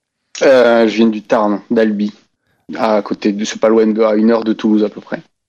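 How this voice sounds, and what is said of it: Strong southern French regional accent. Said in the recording (French): “avec ce magnifique accent ... Je sais pas s'ils sauraient tous les mots que tu as dit avant, parce que même moi, j'ai pas compris la moitié.”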